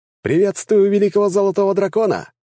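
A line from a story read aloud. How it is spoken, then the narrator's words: Shouted. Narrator (Russian): прокричал я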